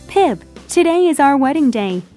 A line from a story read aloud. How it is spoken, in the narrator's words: Biddy cried